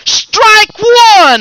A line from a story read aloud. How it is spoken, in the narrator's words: he yelled